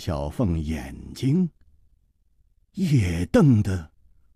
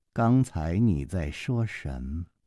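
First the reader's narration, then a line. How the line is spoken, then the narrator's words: Slow drawl. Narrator (Chinese): 公平慢吞吞地说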